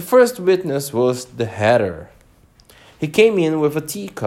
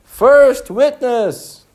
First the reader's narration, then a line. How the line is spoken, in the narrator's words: the white rabbit called out